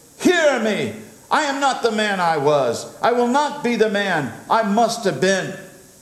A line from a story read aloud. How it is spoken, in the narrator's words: cried